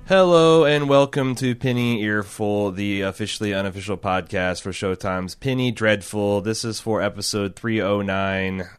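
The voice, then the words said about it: Flat monotone dirge-like delivery. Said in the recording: “Why are you doing this so monotone? ... This is a funeral dirge. This is a lamentation.”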